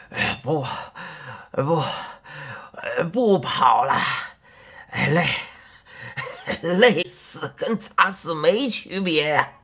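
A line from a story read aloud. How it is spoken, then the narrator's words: Breathless, exhausted. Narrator (Chinese): 喘了好一阵子，他才说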